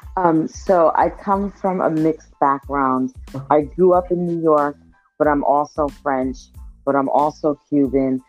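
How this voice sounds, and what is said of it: Speaks with a twang accent. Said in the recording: “I hear the accent, so I'm hoping our listeners will hear the twang in your accent”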